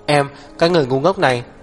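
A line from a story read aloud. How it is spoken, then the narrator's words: Loud panting. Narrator (Vietnamese): Hắc Viêm Triệt thở hổn hển giống to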